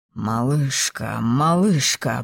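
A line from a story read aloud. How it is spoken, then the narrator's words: Muttered. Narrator (Russian): бормотал он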